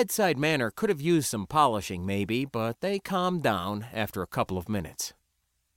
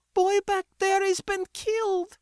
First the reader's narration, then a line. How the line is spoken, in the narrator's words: Maylee wailed